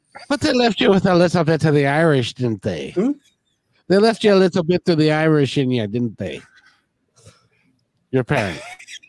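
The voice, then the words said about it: Put-on Irish accent. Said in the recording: “Just giving you a little bit of my Irish accent ... Oh, that's good. Can't go wrong with a good Irish accent.”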